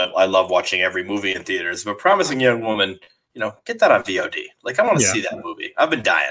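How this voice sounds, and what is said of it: Usual voice. Nothing is said of it.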